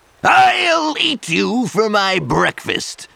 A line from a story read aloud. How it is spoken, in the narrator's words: roared the troll